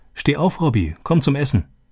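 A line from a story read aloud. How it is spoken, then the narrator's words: Called out. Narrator (German): rief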